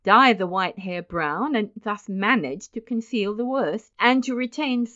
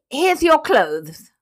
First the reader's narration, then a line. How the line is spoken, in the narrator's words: he snapped out